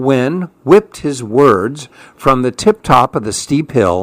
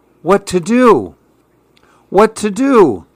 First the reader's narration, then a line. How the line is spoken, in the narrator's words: And the man cried